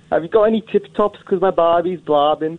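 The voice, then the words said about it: Awful higher-pitched Birmingham accent. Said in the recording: “the same accent, but just higher pitched ... That really is awful ... doing Birmingham again ... Just higher pitch”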